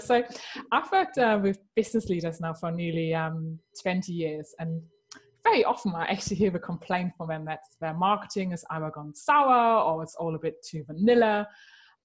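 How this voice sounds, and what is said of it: Slight German accent. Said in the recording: “I am actually German. Some people might already guess that by my tiny little bit of an accent.”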